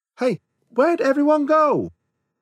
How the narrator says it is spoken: heard him yell in the distance

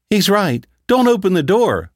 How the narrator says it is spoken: Phyllis begged

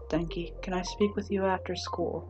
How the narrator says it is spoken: Shinsou asks softly

